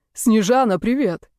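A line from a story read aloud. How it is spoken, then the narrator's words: Booming joyful deafening voice. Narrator (Russian): прогремел радостный голос, оглушая меня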